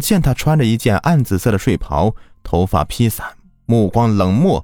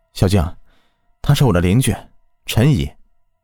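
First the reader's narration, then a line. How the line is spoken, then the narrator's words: Sighing. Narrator (Chinese): 刘生叹了一口气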